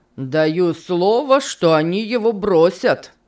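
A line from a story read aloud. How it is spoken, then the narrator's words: Exclaiming. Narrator (Russian): воскликнул Финиас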